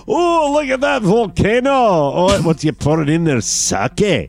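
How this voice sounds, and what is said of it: Put-on Scottish accent. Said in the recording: “Scottish accent ... let's do that accent ... Two Scotsmen sitting there and say”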